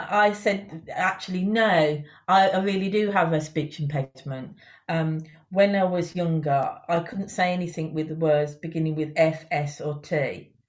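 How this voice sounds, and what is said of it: Birmingham accent. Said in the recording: “This is a Birmingham accent.”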